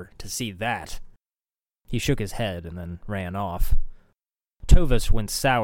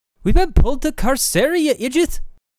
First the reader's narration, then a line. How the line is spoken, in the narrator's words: Anna snapped